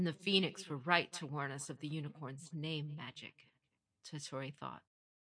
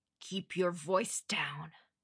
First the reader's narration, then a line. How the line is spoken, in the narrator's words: Ishikawa hissed